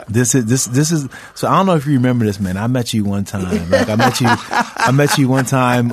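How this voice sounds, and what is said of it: Imitates another person's voice. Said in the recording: “good mic imitation ... You talk like me”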